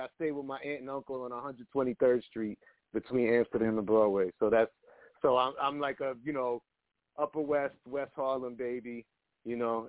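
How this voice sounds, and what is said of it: Harlem New York accent. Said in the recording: “you could hear the Harlem ... he got that Harlem, like that Harlem sound ... just the way you put the words together”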